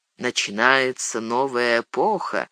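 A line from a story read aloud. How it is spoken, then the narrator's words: Said quietly. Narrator (Russian): негромко сказал Гэндальф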